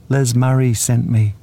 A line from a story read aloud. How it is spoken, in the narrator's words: I said nervously